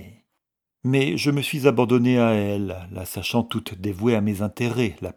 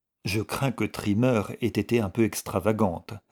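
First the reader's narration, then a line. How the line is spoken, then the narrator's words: Plain. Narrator (French): répondit Mrs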